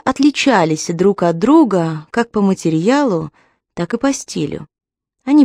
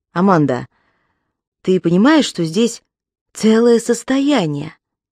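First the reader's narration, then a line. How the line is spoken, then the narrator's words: Plain. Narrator (Russian): спросил Рон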